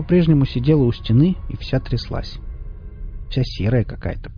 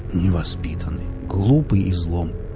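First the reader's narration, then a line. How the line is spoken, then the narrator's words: Muttering. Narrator (Russian): пробормотал Велес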